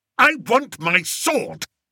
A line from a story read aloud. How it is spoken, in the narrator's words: snapped King Fred